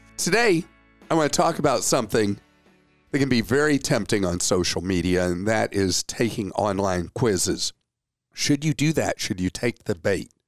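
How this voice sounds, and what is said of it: Hoarse, froggy voice. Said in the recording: “laryngitis. You'll hear the hoarseness in my voice... this froggy voice”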